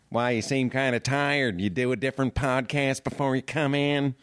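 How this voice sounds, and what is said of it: Cartoonish imitation of another person's voice. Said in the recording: “You sound just like someone who is potentially animated ... This is actually the voice of a guy I worked with ... I used to do an impression of him all the time ... It's a little bit Jack Nicholson again”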